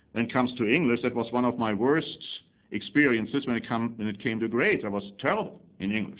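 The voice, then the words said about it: Accent some find hard to understand. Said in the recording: “some don't understand my accent”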